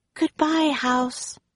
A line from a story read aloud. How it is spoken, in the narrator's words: whispered Annie